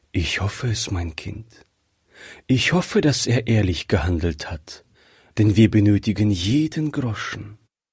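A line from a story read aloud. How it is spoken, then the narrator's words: Mother sighing. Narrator (German): sagte die Mutter seufzend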